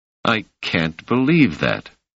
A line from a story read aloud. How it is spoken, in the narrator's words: said Selden